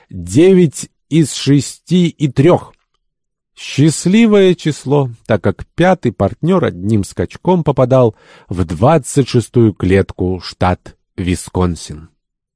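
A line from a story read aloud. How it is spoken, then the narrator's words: Ringing voice. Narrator (Russian): звонким голосом произнес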